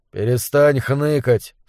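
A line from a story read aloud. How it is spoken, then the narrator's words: Calm. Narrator (Russian): спокойно сказал Зубер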